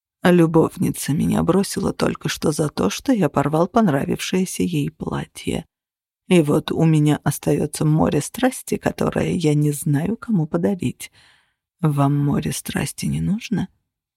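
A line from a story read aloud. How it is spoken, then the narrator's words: Whisper in ear. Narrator (Russian): Прошептали мне на ухо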